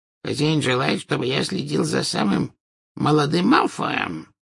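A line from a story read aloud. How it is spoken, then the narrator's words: Wheezed hoarsely. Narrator (Russian): прохрипел Кикимер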